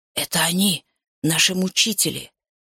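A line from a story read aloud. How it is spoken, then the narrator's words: Whisper near tears. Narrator (Russian): шепнул президент, чуть не плача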